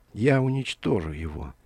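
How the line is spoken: Barely audible, quiet. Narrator (Russian): тихо сказала Алиса, но никто, кроме Кисо, ее не услышал

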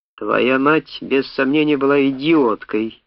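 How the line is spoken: Words through gritted teeth. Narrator (Russian): процедил он

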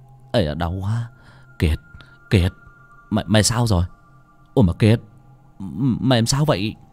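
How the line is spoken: Asking. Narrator (Vietnamese): Thằng Sồi vừa hỏi

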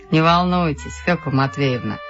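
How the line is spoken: Plain. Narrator (Russian): сказал Владимир Иванович

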